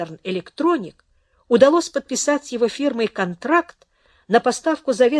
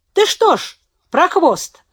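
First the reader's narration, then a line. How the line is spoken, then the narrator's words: Joyful shout. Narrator (Russian): радостно крикнул брат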